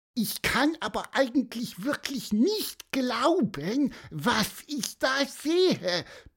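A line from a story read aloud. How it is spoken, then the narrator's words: Squeaky voice. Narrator (German): piepste Pieper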